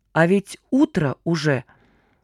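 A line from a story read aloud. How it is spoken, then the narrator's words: Drawn-out, dawning realization. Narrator (Russian): протянул мальчишка, только сейчас поняв, что их гонки за пекторалью продолжались всю ночь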